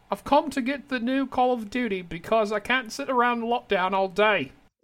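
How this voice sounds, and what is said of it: Put-on British accent. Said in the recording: “Now I've got to try the British accent. ... That's pretty good.”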